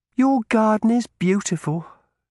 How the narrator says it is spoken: added wistfully

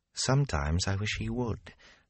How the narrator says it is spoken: Gawain said softly for Rand's ear

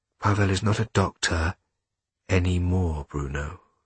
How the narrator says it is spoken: said Maria quietly

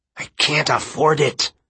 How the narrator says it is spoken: he said through his teeth

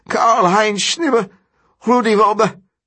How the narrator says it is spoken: Each breath burns, his whole body feels on fire, and he cannot hold out any longer, cannot stop himself as he croaks

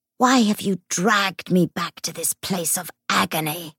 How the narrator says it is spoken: Garst hissed

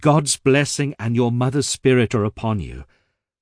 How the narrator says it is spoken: I exclaimed

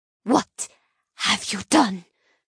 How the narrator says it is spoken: she whispers in horror

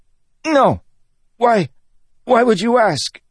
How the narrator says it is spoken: the man sputtered

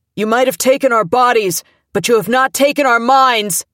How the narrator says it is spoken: someone yelled

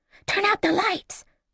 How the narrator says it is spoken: Collingwood whispered

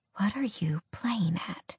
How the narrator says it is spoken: she whispered, wanting to know why the library had sent her there

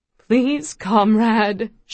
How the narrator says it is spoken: she begged

